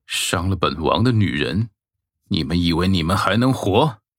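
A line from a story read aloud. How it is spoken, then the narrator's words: Cold, contemptuous. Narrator (Chinese): 慕容易冷冷的看着二人，鄙夷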